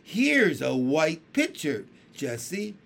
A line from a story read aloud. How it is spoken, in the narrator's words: she cried